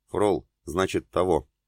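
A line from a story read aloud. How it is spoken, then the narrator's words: Mumbled. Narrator (Russian): пробормотал бедный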